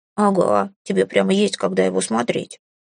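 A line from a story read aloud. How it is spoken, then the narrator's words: Relishing snort. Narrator (Russian): фыркнул Филимон с наслаждением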